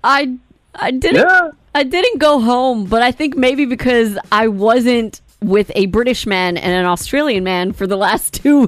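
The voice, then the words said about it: New York accent. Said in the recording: “you can definitely hear the New York accent this morning”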